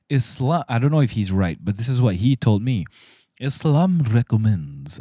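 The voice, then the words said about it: Put-on Arabic accent. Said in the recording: “I don't know why I'm doing an Arabian accent.”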